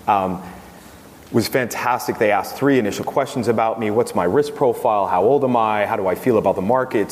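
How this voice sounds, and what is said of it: American accent. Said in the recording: “I have a U.S. citizenship still. As you can tell by my accent.”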